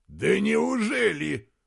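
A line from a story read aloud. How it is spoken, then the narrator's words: Shouted reply. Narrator (Russian): закричал в ответ герцог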